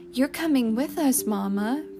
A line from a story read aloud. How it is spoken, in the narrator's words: Francie pleaded